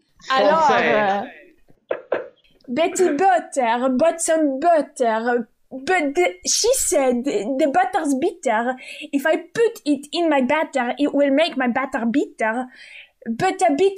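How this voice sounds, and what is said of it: Put-on French accent. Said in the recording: “you get to choose between some Russian, Ukrainian accent, German, or French ... Oh, I would like to listen to French ... French ... We like to listen to the French.”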